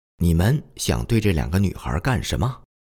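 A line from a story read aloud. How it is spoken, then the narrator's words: Stern, sharp. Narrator (Chinese): 厉声地对包围着我们的人群说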